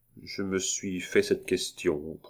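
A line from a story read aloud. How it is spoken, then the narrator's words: Young man, low voice. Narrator (French): prononça le jeune notaire à voix basse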